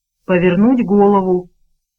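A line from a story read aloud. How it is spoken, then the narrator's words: Grumbling. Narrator (Russian): пробурчал мистер Мрак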